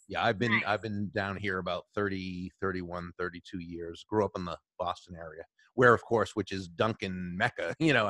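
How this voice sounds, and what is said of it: Boston accent. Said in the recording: “your accent... you can hear that accent?... I detect the accent”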